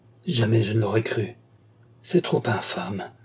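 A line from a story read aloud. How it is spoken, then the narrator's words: Stammering. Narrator (French): bégaya-t-il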